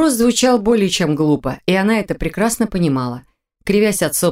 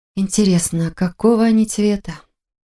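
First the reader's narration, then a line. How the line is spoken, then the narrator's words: Sighing young woman. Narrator (Russian): Вздохнула девушка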